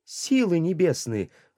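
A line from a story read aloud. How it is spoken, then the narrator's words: Exclamation. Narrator (Russian): воскликнул я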